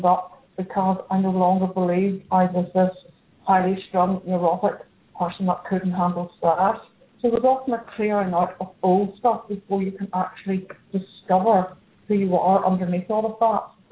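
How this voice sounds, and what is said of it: Northern Irish accent. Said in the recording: “calling in from Belfast, Northern Ireland. If you can't tell by her accent”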